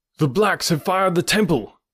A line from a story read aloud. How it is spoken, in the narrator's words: cried